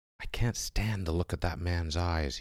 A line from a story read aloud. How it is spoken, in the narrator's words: whispered, and the whisper was shrill